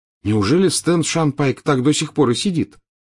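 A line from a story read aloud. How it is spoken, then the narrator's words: Plain question. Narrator (Russian): спросил Гарри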